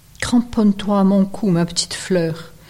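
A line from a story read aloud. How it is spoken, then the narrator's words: Plain. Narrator (French): dit Bjartur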